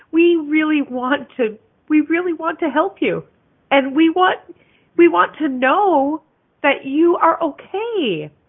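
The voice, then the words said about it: Choked up, emotional voice. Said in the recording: “I'm getting all choked up.”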